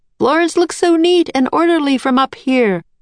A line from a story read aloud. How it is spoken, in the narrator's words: Leonardo cried to Jack and Annie